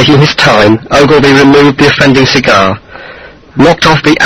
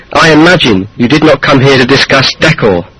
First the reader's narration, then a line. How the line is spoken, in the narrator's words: She said sharply